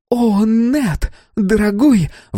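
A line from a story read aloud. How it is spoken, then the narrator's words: Sudden shriek. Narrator (Russian): внезапно взвизгнула Хэти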